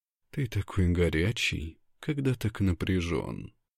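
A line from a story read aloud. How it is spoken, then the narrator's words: Soft intimate voice. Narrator (Russian): говорит она тихо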